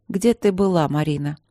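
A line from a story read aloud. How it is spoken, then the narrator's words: Weary question. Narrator (Russian): спросила она устало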